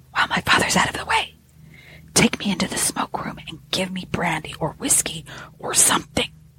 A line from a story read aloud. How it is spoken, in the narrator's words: he whispered